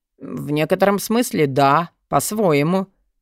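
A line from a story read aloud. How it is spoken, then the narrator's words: Muttered. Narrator (Russian): пробормотал Джестер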